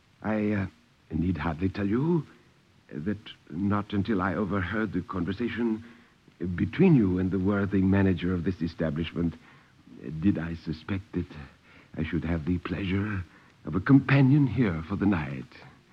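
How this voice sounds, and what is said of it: Perfect English, slight foreign accent. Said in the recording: “He spoke in perfect English with only a trace of foreign accent.”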